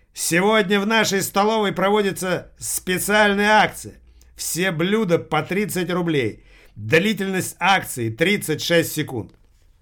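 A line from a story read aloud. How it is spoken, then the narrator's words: Loud announcement. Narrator (Russian): Та громко объявив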